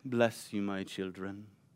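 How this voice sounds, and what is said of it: Put-on stoic British accent. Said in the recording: “he also comes with a British accent, usually ... he's very stoic and also very, like ... there's not like, emotion there”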